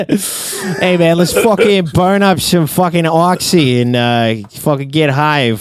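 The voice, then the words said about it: Inconsistent put-on New York accent. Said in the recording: “my New York accent drifts from like Boston to Chicago to Jersey. It's like never directly in Queens.”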